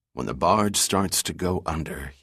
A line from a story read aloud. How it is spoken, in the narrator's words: whispered